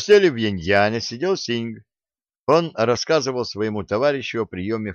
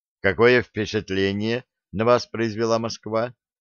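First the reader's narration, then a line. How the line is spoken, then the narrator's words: Plain question. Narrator (Russian): спросил Широков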